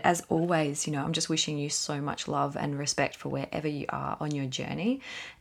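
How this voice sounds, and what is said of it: Slightly croaky voice. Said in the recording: “My voice is a little bit croaky because I literally was talking all weekend”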